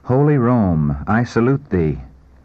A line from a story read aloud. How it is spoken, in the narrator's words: With deep emotion, exclaiming